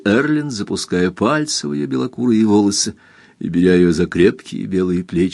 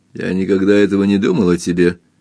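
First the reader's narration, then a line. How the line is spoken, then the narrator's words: Rough. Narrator (Russian): грубо ответил Эрленд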